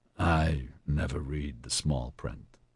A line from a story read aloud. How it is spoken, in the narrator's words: he muttered